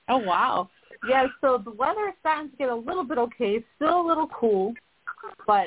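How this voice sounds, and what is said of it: Boston accent. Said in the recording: “I hear your Boston accent. I love it.”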